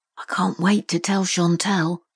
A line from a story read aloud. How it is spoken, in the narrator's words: Daniel murmured